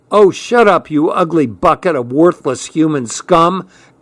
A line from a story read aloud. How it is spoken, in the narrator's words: Gunny shouted back